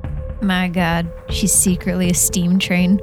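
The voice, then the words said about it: Deadpan flat delivery. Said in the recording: “That was so deadpan, I love it.”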